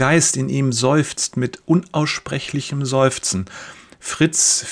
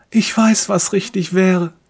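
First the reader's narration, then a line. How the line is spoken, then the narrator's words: Silent pleading. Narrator (German): fleht er stumm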